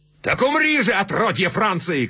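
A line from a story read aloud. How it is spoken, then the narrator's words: Shout. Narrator (Russian): крикнул он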